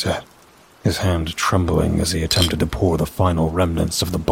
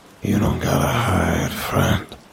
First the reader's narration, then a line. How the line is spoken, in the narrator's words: the guy said with a sigh